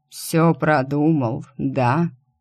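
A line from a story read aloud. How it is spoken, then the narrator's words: Tired. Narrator (Russian): устало произнес он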